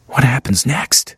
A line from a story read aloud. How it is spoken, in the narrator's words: Louis whispered